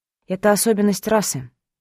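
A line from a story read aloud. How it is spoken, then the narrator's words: Agreeing sigh. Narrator (Russian): вздохнула, соглашаясь с ним на все 100%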